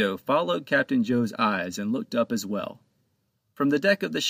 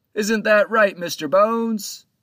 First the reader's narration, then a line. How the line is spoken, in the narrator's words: Captain Joe turned his eyes up to the Crow's Nest and called out